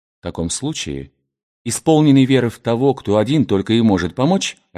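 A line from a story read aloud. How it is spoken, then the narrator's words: Plain. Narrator (Russian): ответил ему противник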